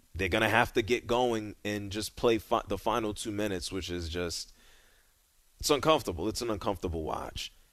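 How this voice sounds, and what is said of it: Rough voice from being sick. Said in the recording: “you don't sound good ... Are you feeling much better now? ... my voice is still crap”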